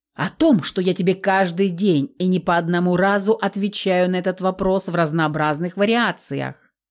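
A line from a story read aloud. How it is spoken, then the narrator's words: Growling. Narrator (Russian): продолжал рычать Феликс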